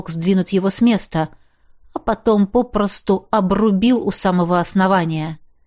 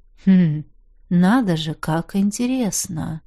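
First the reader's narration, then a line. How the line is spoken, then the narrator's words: Thoughtful drawl. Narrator (Russian): Задумчиво протянул я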